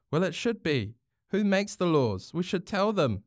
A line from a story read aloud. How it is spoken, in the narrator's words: Hinakura exclaimed